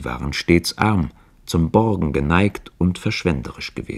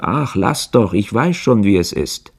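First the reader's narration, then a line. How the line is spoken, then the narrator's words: Call. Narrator (German): rief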